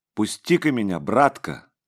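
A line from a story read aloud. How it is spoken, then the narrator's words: Ringing firm voice. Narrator (Russian): сказал бородач звонким твердым голосом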